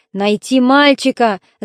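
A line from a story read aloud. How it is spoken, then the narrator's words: Shout. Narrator (Russian): закричал один из них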